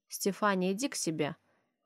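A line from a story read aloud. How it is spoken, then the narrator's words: Cold command. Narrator (Russian): холодно приказываю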